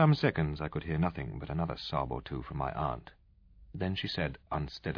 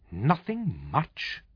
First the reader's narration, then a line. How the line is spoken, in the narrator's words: snapped my mother